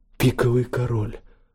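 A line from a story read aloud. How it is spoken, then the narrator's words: Sighing. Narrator (Russian): вздохнул Кристофер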